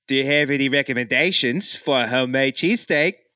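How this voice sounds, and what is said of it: Put-on Australian accent. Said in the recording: “can I do the Australian accent?”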